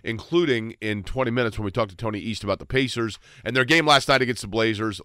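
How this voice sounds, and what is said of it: Congested, stuffed-up voice. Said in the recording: “I'm all wacky on the junk ... how much Sudafed I'm on ... I'm all stopped up. I can't hear anything ... I don't know if I'm yelling. I don't know if I'm too soft.”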